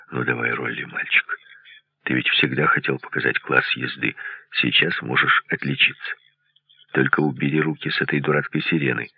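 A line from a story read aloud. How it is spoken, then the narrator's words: Quiet. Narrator (Russian): Сержант тихо сказал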